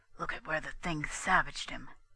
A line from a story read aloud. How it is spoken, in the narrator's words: He whispered to Daisy